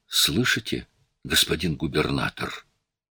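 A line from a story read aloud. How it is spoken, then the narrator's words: Whispered question. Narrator (Russian): шепотом спросил Буссара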